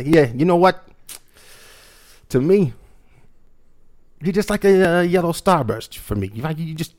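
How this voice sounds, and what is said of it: New York accent. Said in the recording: “I kind of use this New York accent that I have”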